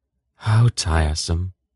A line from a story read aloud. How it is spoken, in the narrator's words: Belgaroth's wife said wearily